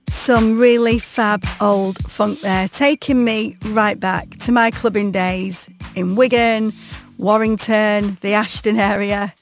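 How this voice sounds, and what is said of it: Northern English accent, Wigan area. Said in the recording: “if you didn't know before from my accent, I am well and truly a pie eater”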